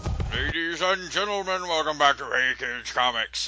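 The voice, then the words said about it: Carnival barker announcer voice, mumbly. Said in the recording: “I'm doing a voice. ... It's like a barker at a booth at International Toy Fair. ... I'm like Don Pardo after he got his wisdom teeth pulled.”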